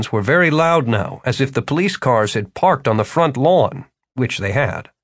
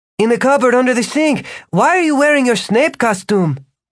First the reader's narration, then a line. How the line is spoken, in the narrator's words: Margarita had to yell